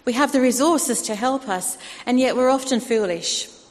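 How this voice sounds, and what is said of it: Australian accent. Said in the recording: “I'm slowly regaining my Australian accent, as you can tell, I'm told.”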